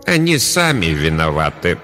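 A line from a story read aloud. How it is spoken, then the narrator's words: Grim, abbess. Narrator (Russian): мрачно ответила настоятельница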